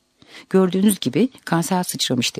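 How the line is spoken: Plain. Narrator (Turkish): dedi

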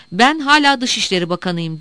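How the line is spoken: Shouting. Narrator (Turkish): diye bağırdı

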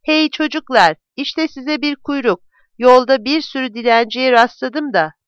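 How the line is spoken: Shouting. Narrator (Turkish): diye bağırdığını

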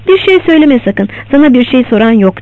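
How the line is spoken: Plain. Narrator (Turkish): dedi

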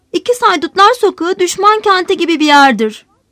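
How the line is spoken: Heartbreaking voice. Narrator (Turkish): Jean insanın yüreğini paralayan bir sesle

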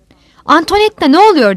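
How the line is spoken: Shouted, frightened. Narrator (Turkish): diye bağırdı Marki korkmuş

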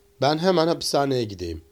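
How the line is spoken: Plain. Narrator (Turkish): dedi

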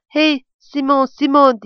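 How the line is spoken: Shouting. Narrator (Turkish): diye bağırarak

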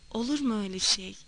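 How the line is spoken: Muttering. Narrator (Turkish): diye mırıldandı

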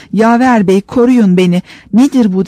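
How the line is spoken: Shouting. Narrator (Turkish): diye bağırıyordu

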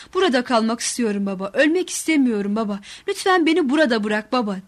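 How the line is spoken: Shouting. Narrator (Turkish): diye bağırdım

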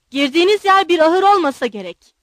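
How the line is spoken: Shouting. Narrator (Turkish): diye bağırdı

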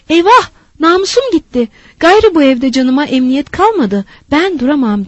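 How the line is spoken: Loudly shouting. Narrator (Turkish): diye bar bar bağırmıştı

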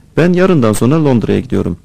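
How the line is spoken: Plain. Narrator (Turkish): dedi

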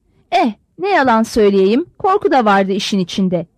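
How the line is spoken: Plain. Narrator (Turkish): dedi

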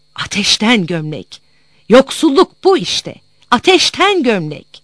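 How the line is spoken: Mother shouting in anger. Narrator (Turkish): Hiddete kapılan annem bağırırdı

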